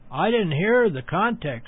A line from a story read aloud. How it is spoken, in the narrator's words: she said